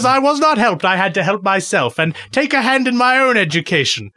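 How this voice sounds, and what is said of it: Put-on English accent. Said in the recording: “my good education in my English voice”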